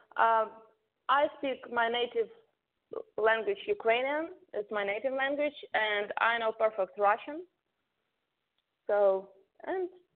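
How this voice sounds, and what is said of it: Foreign accent in English. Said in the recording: “I do hear an accent”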